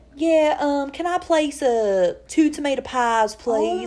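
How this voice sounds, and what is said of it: Put-on Southern accent. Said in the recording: “use a southern accent ... Why do you sound like Sandy Cheeks?”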